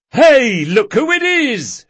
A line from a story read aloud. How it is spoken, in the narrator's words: shouted Galdo